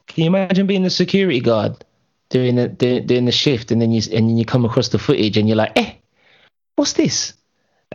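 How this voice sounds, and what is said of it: Put-on African accent. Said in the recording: “How did you do an African accent? ... turned into an African security guard real quick.”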